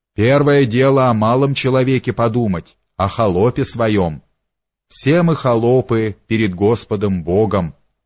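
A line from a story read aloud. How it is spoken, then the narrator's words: Stern. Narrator (Russian): строго окончил он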